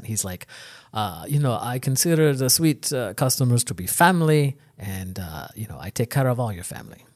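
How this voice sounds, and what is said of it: Bad put-on Jamaican accent. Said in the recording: “my really bad Jamaican accent”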